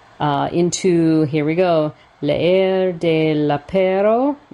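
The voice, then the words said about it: French words in Spanish accent. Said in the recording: “I'm doing it with a Spanish accent”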